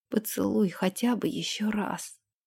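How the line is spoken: Hoarse repetition. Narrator (Russian): Повторил хрипло

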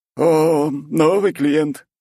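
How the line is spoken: Cheerful exclamation. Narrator (Russian): воскликнул веселый булочник

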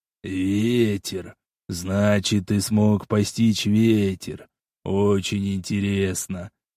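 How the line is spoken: Demon, thoughtful voice. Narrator (Russian): задумчивым голосом проговорил демон на ходу

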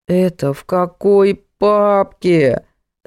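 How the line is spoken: Groaning. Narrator (Russian): застонал Димон

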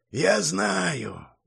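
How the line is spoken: Tired. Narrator (Russian): устало сказал монах

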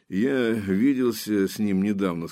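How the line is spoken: Plain. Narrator (Russian): сказал Железовский

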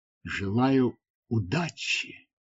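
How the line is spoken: Whispered. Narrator (Russian): прошептала Тавия

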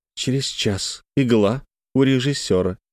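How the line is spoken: Quiet, clipped, precise. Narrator (Russian): тихим голосом отчеканила

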